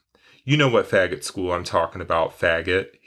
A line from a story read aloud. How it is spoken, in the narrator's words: he spat